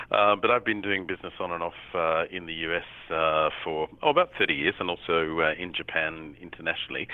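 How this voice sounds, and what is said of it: Australian accent. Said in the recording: “by the accent, you can tell I'm, as we say over here, from far south Florida, in the southern hemisphere in Australia.”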